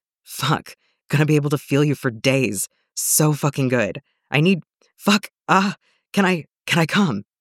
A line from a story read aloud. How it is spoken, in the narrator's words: Jason almost chokes on his gasp